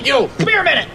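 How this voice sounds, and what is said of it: Loud shouting. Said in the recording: “I'm yelling at the same person... Why are you yelling at people?... You're the one shouting at people!”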